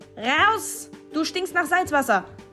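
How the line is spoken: Screamed. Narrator (German): schrie Josi

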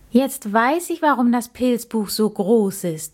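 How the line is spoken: Called out. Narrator (German): rief er

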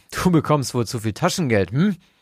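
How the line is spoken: Laughing. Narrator (German): lachte er

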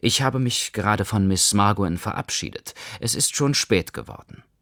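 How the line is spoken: As calmly as possible. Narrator (German): sagte ich, so ruhig ich konnte

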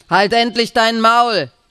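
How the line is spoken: Coachman shouting. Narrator (German): schreit ein Kutscher

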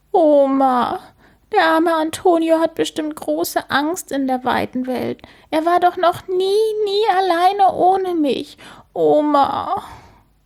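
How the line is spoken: Sobbing. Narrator (German): schluchzt sie

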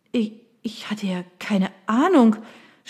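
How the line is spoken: Stammered. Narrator (German): stotterte Mallory

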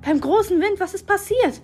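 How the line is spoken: Called out, hint of fear. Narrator (German): rief sie, und ich meinte, einen Hauch von Angst in ihren kalten blauen Augen zu sehen

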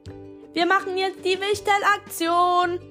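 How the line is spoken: Called out. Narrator (German): rief sie

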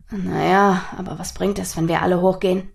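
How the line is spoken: Quiet question after pause. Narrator (German): fragte Nathaniel nach einer Weile leise

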